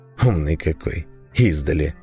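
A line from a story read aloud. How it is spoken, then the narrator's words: Displeased grumble. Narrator (Russian): проворчал недовольно маг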